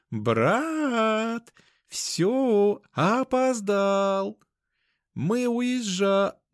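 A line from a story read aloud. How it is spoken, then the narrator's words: Shouting female voice. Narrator (Russian): начала сильно стучать в нее и закричала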